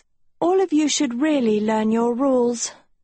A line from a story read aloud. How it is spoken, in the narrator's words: Sophie sighed